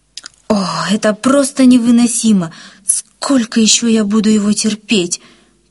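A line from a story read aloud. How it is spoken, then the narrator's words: Moaning, holding back tears. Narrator (Russian): простонала Рима, сдерживая навернувшиеся слезы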